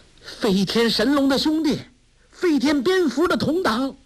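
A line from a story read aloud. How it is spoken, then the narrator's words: Shouting. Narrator (Chinese): 梅超风叫道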